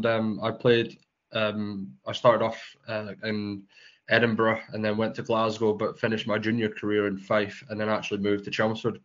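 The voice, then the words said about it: Scottish accent. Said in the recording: “you're a Scottish man from your accent.”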